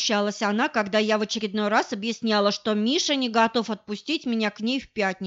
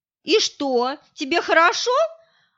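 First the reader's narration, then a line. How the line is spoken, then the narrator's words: Hurt question. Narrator (Russian): обиженно спросила Оля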